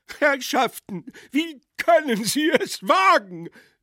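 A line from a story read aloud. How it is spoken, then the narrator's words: Desperate shout. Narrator (German): schrie verzweifelt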